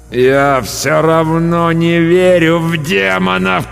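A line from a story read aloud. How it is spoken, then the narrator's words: Groaned. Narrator (Russian): простонал я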